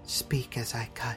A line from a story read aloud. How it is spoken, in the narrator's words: she whispered